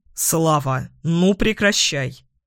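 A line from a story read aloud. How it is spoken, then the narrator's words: Stern. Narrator (Russian): Строго произносит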